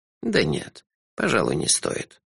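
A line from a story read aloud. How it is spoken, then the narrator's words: Sighing. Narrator (Russian): вздохнул Лонли Локли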